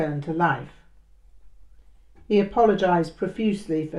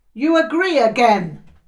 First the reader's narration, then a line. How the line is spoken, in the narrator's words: he shouted